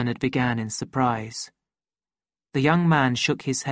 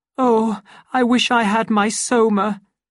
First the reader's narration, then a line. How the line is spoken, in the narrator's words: cried Lenina from behind her hands